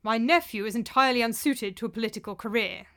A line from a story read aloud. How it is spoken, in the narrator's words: said Tiberius sharply